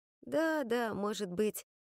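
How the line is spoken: Dejected reply. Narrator (Russian): уныло откликнулась Айви

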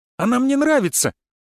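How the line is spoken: Shouted. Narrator (Russian): крикнул Влад

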